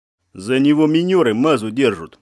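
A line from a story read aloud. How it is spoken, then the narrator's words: Calm answer. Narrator (Russian): ответил спокойно штабной матрос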